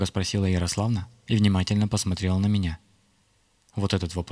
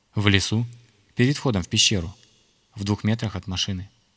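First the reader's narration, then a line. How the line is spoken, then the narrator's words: Calm reply. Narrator (Russian): спокойно ответил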